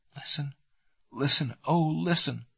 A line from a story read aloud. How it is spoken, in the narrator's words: begged in a whisper